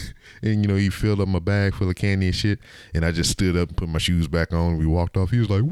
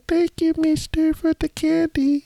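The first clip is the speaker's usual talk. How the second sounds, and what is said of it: Imitated little kid voice. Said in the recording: “doing the little kid voice.”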